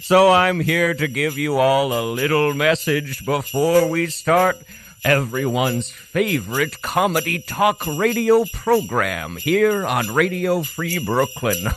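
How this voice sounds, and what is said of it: Character voice of a cartoon reindeer. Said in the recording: “It's me, Rudolph, the red-nosed reindeer. A lot of people don't know that me and Santa have very similar accents.”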